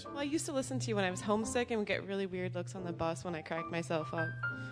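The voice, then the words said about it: Slight Scottish accent. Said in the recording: “You got a little bit of the Scottish accent there.”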